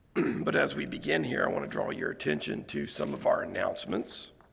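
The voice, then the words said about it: Strained voice needing throat clearing. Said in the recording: “As you can tell in my voice, got a little bit of a voice issue this morning ... I'm going to have to clear my throat here and there”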